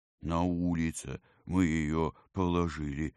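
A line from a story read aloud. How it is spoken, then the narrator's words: Plain. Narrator (Russian): ответил юноша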